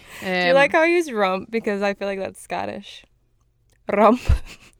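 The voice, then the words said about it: Put-on Scottish accent, rolled R. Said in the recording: “Now she's trying to add a weird accent right. to it. She rolled the R.”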